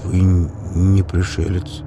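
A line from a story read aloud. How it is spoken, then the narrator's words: Muttered. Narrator (Russian): пробормотал Милов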